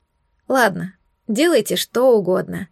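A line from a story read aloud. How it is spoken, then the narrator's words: Weary, dismissive. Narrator (Russian): устало махнула я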